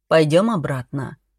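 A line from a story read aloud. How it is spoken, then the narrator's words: Gentle suggestion. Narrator (Russian): мягко предложил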